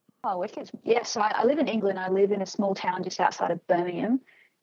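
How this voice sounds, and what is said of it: Australian accent. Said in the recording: “There's that Aussie right. Oh, accent.”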